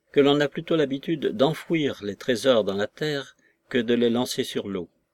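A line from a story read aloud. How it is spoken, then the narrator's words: Detached tone. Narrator (French): fit le docteur d'un ton détaché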